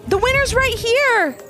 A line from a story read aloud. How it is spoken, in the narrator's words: The people standing next to Ivy's mom called out